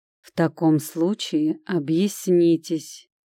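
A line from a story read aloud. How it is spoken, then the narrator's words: Calm. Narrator (Russian): спокойно произнес Олег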